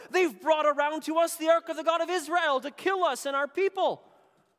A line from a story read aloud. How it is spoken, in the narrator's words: the people of Ekron cried out